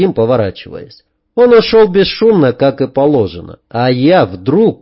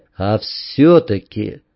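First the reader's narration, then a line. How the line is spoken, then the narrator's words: Quiet. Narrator (Russian): тихо сказал Вадим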